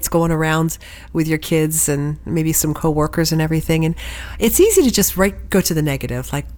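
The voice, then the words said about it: Congested, stuffy nasal voice. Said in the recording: “as you can hear, maybe I've got a bit of a cold. I'm a little stopped up”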